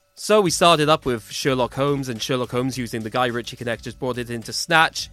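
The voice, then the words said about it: Football commentator style voice. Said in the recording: “my best football commentator impression”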